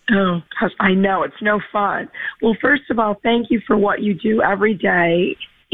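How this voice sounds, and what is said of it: Hoarse, raspy voice. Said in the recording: “Sounds like you've got the same allergy voice issue I've got. ... I have a little laryngitis.”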